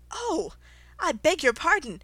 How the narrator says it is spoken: exclaimed in a tone of great dismay

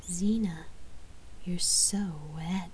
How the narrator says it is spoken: she purred

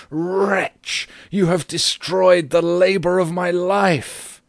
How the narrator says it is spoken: shrieked aloud

